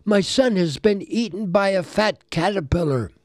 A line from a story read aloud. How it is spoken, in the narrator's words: he moaned